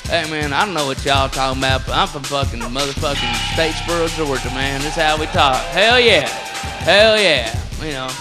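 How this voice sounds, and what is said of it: Put-on Southern redneck accent. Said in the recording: “the redneck voice is all over the place... and it's not just the South”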